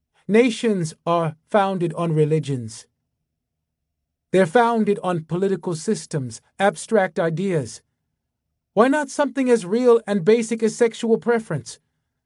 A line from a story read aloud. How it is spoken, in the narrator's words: Louder, his voice steady